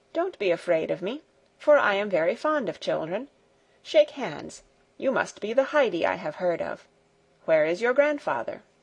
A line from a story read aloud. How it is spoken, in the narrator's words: he said in a kind voice